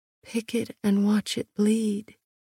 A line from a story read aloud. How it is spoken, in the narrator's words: I murmured